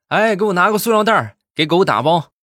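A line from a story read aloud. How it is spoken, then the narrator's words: Loud shout. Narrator (Chinese): 大声的喊道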